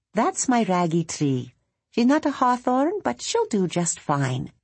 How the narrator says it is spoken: Maeve would simply say in her lilting voice

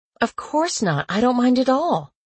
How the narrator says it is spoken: I said eagerly, my insides glowing the way they always did when I helped someone

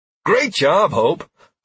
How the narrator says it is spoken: I exclaimed

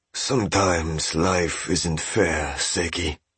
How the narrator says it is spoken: said Master Sugihara softly

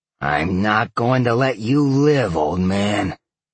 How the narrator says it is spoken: Sal growled

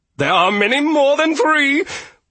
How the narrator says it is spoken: Lord Toby shouted

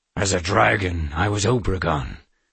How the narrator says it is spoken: the man said in a gruff voice

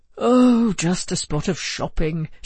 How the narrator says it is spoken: sighed Joe

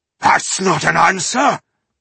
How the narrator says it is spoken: Ireheart cried out angrily

